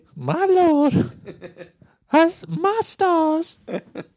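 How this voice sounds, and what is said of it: Good Blanche impression, Rue McClanahan. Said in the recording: “That did sound like Blanche. Yeah. That was a very good Blanche impersonation. Yeah. Rue McClanahan.”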